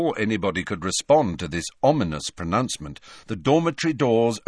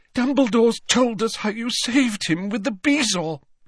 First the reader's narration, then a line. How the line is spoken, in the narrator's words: she sobbed